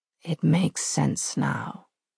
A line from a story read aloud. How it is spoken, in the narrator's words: he says softly